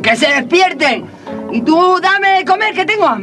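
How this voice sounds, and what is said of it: Shouting angrily. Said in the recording (Spanish): “No grites, no grites”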